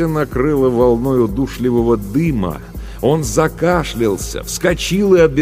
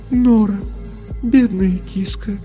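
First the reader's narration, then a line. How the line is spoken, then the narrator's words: Sad. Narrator (Russian): печально произнес голос Софии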